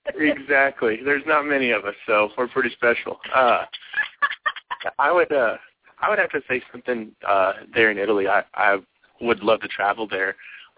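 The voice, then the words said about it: Texan accent. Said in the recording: “I'm Italian, despite the accent ... an Italian Texan”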